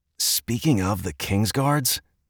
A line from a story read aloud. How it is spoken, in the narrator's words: Edmund spoke under his breath, leaning in to keep the conversation private